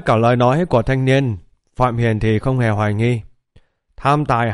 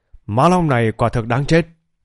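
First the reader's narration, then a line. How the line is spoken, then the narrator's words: Angry, stern. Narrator (Vietnamese): Nghe thanh niên khóc lóc kể lể thì Phạm Hiền lập tức nổi giận, nghiêm nghị nói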